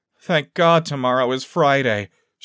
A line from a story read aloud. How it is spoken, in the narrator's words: she moaned